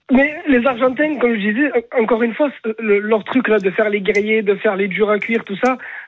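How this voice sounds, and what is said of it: Southern French accent. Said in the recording (French): “ton accent du Sud”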